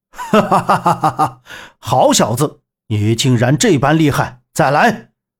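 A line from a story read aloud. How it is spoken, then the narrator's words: Excited long laugh. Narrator (Chinese): 柳残阳打得兴奋，长笑道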